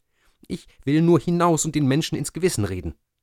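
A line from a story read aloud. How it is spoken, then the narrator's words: Calling out. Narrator (German): rief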